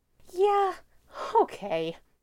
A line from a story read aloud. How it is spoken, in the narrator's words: she says, exhaling shakily